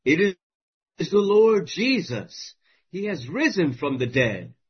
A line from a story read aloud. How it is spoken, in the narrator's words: Both exclaim at once